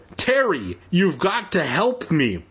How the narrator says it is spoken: she shouted as loud as she could

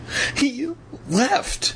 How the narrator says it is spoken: Evan choked out

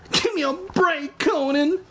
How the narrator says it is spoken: Evan pleaded

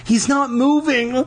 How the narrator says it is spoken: Lauren sobbed

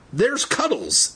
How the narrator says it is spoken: Andy cried

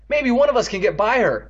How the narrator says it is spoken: Evan cried

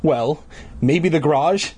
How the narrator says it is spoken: Dad laughed

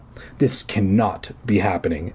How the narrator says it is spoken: Eddie choked out

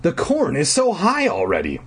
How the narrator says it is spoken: I exclaimed

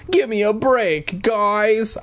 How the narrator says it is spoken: I pleaded

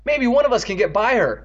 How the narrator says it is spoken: Evan cried

